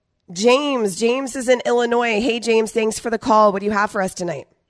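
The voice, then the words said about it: Strained, sick-sounding voice. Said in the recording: “my voice is struggle city tonight being sick ... just make it through the show voice”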